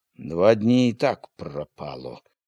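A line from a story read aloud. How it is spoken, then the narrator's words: Gloomy grouse speaking. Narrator (Belarusian): прамовіў панура глушак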